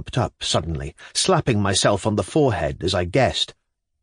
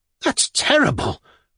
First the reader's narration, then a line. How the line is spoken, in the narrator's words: cried Tatyana Pavlovna, grasping what had happened